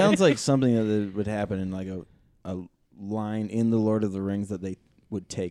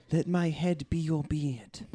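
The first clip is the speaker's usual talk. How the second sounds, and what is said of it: Creepy, weird put-on accent. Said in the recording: “Sounded creepy with that weird accent.”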